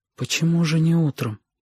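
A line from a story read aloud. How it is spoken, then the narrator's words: Whispered question. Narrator (Russian): шепотом спросила Сашка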